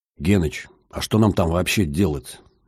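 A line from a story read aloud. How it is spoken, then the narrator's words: Whispered question. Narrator (Russian): шепотом спросил Витек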